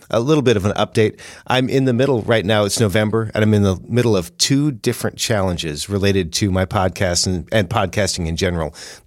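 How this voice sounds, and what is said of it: Weak voice recovering from illness. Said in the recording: “I've had some challenges with my voice and with a cough ... my voice is still a little bit weak”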